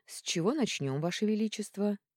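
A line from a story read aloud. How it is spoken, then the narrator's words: Perfectly calm. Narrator (Russian): совершенно спокойно отозвался советник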